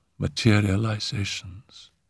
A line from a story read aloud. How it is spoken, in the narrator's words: said Simone in a low voice